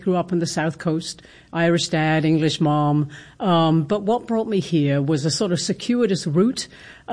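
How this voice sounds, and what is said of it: British accent. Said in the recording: “I detect a British accent ... Yes, British accent, definitely.”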